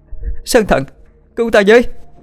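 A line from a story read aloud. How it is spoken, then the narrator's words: Instinctive scream. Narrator (Vietnamese): Trong vô thức, Vũ Sơ Yến hét lên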